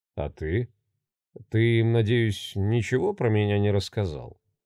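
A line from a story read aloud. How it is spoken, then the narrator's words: Forced calm question. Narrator (Russian): Как можно спокойнее задал он вопрос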